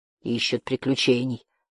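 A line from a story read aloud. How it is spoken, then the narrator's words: Grumbling. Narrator (Russian): проворчал Барда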